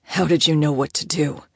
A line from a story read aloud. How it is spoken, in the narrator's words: he demanded in a roughened tone